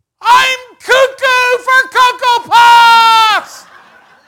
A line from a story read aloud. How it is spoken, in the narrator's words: I yelled